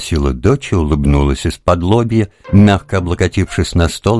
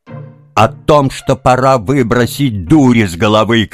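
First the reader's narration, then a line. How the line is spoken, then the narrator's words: Shouting. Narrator (Russian): крикнула мать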